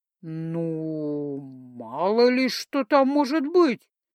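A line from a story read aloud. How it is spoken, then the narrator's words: Vague drawl. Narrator (Russian): неопределенно протянула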